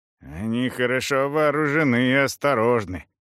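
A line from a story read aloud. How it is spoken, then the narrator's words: Absent-minded reply. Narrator (Russian): отвечал рассеянным тоном арапа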